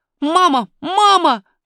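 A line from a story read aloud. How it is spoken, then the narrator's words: Shout. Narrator (Russian): крикнул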